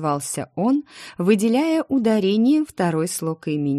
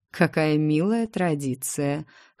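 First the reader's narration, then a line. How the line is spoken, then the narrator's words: Governor's wry snort. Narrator (Russian): хмыкнул наместник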